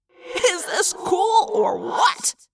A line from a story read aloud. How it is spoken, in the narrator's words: Marco laughed in my head